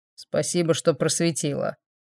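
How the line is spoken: Grumbled. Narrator (Russian): пробурчал Квардинг

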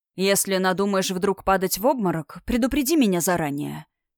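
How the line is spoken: Slightly ironic whisper. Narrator (Russian): чуть иронично шепнул Амир

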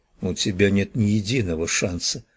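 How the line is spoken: Grim, curt. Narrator (Russian): мрачно бросила

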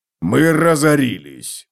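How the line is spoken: Barked. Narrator (Russian): рявкнул Готрек

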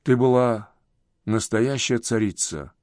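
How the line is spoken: Trembling voice. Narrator (Russian): Филомер произнес дрожащим голосом

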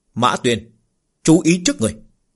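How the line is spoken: Bright raised laughing voice. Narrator (Vietnamese): Ánh mắt Lục Phàm sáng ngời, cao giọng cười nói

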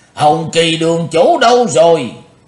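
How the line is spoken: Shouted loudly. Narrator (Vietnamese): Lý Vân Hạo quát lớn

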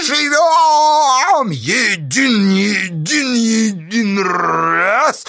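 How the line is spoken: Hoarse crowd. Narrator (Russian): хрипела толпа

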